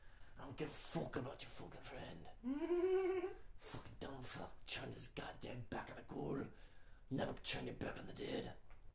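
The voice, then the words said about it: Low, throat-pushed character voice with accent. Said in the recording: “He's got the accent,... he's just more low level. That's really just me pushing down. And down my throat as I speak.”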